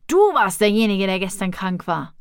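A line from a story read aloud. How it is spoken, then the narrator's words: Growling. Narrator (German): knurrte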